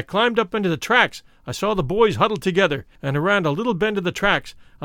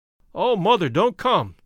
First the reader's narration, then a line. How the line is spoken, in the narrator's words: they cried